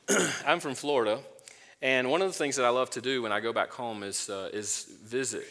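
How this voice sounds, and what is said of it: Georgia-sounding Southern American accent. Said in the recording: “I'm from Florida. You probably could tell by the accent. No, it sounds like I'm from Georgia”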